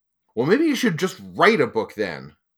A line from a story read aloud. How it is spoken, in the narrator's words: Costrell said sharply